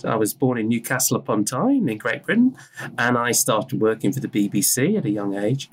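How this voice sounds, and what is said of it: British accent. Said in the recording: “I'm British, you can hear from my accent.”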